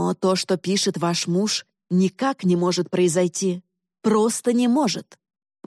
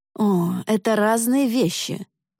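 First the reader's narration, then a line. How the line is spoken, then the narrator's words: Almost groaning. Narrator (Russian): почти простонал мистер Пеннингтон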